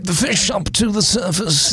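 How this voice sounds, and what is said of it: David Attenborough nature-documentary impression. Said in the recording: “in a David Attenborough voice?”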